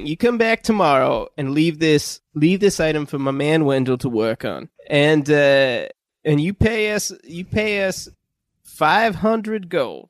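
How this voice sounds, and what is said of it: Inconsistent put-on Southern accent. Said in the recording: “When did your accent turn southern? ... I can't keep it consistent.”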